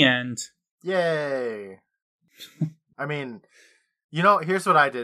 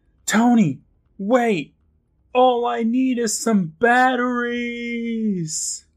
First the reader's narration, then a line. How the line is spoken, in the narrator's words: Seth yells